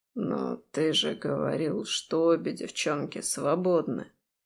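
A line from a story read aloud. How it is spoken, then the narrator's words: Soft objection. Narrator (Russian): Мягко возражает Мирон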